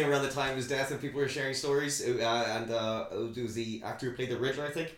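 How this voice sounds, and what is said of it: Usual voice. Nothing is said of it.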